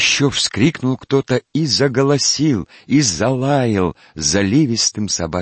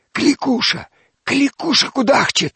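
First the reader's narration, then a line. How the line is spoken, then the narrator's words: Women whispering. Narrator (Russian): зашептали бабы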